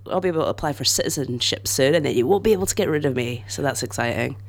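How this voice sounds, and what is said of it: Scottish accent. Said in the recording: “I'm Scottish, which is why Liv wants to do my accent.”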